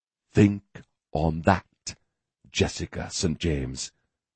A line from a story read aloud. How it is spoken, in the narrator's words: he whispered